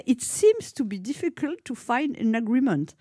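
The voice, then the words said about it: Put-on English accent. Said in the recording (French): “mon magnifique accent anglais”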